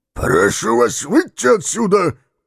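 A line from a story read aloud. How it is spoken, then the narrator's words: Hoarse wheeze. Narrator (Russian): прохрипел он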